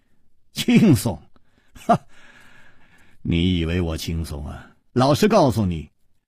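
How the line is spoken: Bitter laugh. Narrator (Chinese): 楚留香苦笑着说

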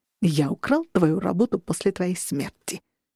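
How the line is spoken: Gleeful whisper. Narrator (Russian): сказал Мэддиган ликующим шепотом

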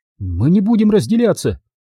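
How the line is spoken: Shouted. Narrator (Russian): выкрикнула Анна

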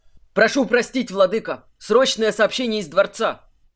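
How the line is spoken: Messenger's shout. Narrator (Russian): выкрикнул гонец с порога

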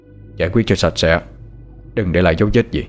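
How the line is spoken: Cold, flat command. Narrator (Vietnamese): Thái nói với vẻ lạnh lùng

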